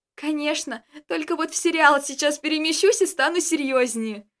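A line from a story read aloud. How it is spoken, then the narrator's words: Laughing, barely getting words out. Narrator (Russian): Смеясь, еле вымолвила Джессика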